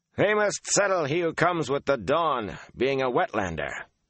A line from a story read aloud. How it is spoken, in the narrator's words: Han barked